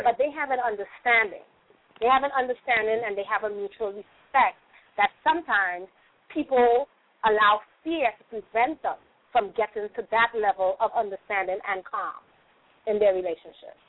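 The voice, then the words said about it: Trinidadian Caribbean accent. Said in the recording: “you got an accent, so, you know, your accent tells me ... you're from ... the Caribbean ... I'm actually originally from Trinidad and Tobago.”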